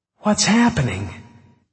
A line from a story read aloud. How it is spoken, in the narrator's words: she cried